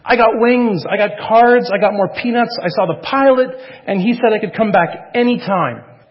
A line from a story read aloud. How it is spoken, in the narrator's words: Michael excitedly exclaiming